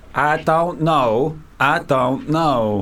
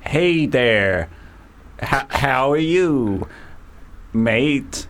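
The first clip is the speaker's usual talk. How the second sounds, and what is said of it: Bad put-on American Southern drawl. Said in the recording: “try, like, American now ... This is awful. ... That sounds American, doesn't it? A bit of a Southern drawl.”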